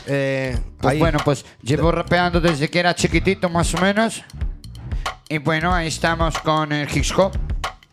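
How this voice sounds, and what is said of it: Galician Spanish accent. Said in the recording (Spanish): “¿De Coruña? ... Por eso el acento.”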